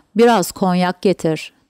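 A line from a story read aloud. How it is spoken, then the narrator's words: Plain. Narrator (Turkish): dedi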